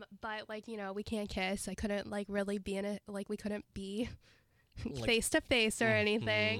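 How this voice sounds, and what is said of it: Sick-sounding voice. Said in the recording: “I'm sick, if you can hear it in my voice.”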